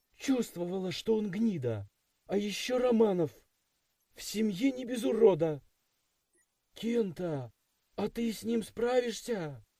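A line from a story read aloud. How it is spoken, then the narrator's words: Anxious question. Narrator (Russian): Взволнованно поинтересовалась Юки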